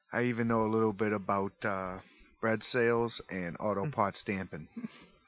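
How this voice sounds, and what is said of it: Put-on New Jersey accent. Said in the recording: “I faded in the New Jersey accent.”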